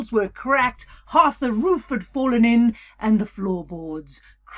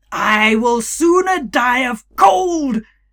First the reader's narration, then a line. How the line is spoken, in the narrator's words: he shouted into the night